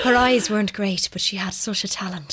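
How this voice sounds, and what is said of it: Camp put-on Irish accent. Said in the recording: “your Irish accent is better than mine... when you're trying to do a camp Irish accent, it's always better than my one.”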